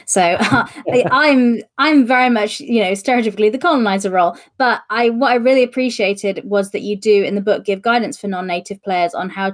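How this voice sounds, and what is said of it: British English accent. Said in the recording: “I'm white British and I have this accent.”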